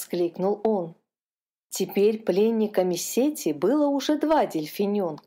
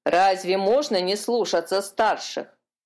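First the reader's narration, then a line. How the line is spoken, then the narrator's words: Grumbling gull. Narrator (Russian): проворчала серая чайка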